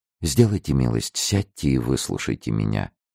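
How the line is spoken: Gentle interrupting voice. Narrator (Russian): перебила его Луиза своим ласковым голосом

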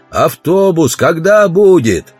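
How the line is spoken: Shouting. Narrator (Russian): Удалов закричал

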